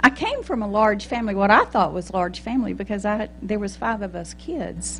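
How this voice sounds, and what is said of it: Texas accent. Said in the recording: “I was born in Texas, in case y'all don't know that from my accent”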